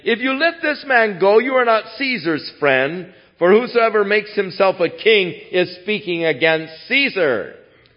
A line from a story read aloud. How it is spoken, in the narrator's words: the Jews cried out, saying